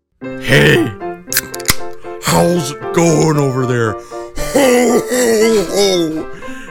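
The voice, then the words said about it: Jolly toy Santa character voice. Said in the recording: “that impression... that big toy Santa from Santa Claus 2”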